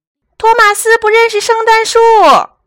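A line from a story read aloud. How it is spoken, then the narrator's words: Calling out everywhere. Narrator (Chinese): 邓肯又到处喊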